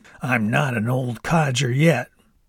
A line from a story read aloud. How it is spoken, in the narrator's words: Grandpa made a weird grunting noise and said